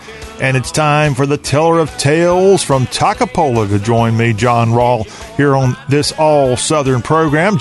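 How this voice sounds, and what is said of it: Southern American accent. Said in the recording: “talk with a Southern accent ... we are the show that talks with a Southern accent”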